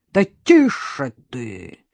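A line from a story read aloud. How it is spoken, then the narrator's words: Barked. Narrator (Russian): рявкнул тот, что с родинкой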